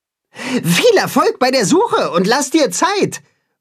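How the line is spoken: Calling after someone. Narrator (German): ruft Timme ihm nach

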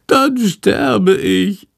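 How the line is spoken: Wailing. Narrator (German): jammert Schandor

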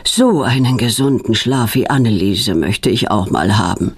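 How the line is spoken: Plain. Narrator (German): sagt er immer

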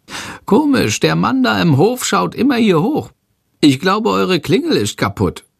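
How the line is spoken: Calling out. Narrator (German): ruft Chandor

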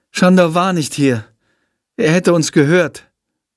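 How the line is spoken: Sighing. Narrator (German): seufzt Jendrik

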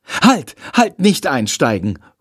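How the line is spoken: Calling out. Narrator (German): ruft er

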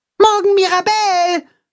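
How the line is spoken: Calling after. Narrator (German): ruft Max ihr nach

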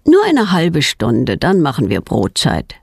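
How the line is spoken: Plain. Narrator (German): sagt ihr Vater

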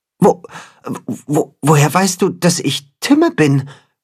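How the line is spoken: Stammering. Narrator (German): stottert das Katzenhuhn

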